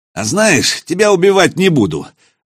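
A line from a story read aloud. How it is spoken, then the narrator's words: Declaring after laughing. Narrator (Russian): заявил он, отсмеявшись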